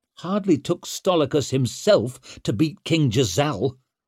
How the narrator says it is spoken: snapped Leo

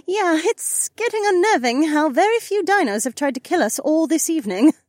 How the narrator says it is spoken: Becca chuckled

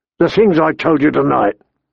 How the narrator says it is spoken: he said, his voice sounding even rougher than usual

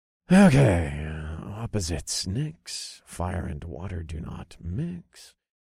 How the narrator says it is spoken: I muttered to myself

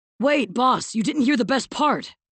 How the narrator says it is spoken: Blade shouted

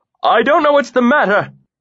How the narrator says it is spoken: he cried, looking about wildly

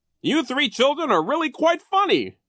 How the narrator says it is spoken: Nero cried

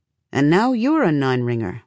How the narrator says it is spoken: Alabaster says

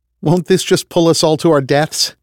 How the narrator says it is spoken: Veronica asked with a laugh

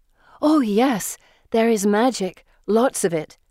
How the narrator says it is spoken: Felicity exclaims

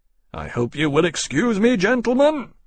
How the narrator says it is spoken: Lawrence said, nearly shouting as the noise climbed to a fresh pitch

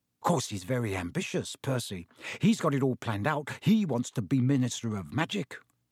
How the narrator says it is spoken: Ron told Harry and Hermione in an undertone

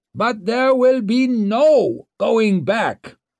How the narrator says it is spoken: roared Kernsbeck

